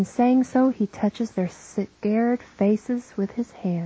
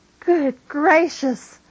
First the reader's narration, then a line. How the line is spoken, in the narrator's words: Mary of Jacob shouts